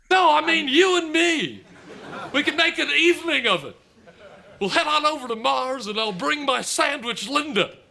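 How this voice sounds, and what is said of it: Bob Hope impression. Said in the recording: “Dave Thomas doing a spot on Bob Hope... could do a Bob Hope impression”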